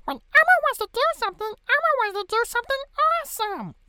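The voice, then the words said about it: Sesame Street character voice impression. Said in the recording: “I can actually do a very good Sesame Street impression. ... I sound like the biggest fucking pedophile”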